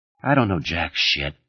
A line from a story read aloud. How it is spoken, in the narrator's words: he muttered